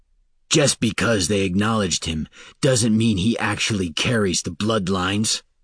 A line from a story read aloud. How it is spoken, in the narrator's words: Falinar snapped